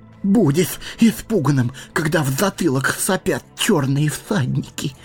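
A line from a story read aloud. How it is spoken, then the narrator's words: Trembling voice. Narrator (Russian): проговорил Сэмми дрожащим голосом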